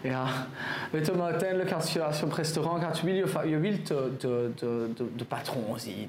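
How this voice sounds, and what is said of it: French accent speaking Dutch. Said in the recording (Dutch): “die daar met zijn Frans accent”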